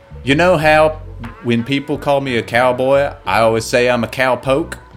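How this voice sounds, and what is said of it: Put-on Southern accent. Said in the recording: “I can't say his name in a Southern accent”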